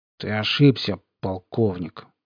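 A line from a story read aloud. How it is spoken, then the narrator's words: Indifferent, through teeth. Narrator (Russian): равнодушно процедил Рвач сквозь зубы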